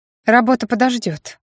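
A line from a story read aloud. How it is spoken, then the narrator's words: Amused grunt. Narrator (Russian): хмыкнула Аня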